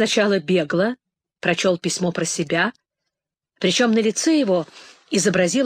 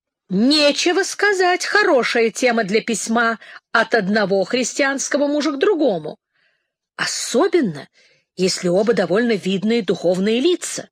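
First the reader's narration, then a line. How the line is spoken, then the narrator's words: Exclaimed. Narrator (Russian): воскликнул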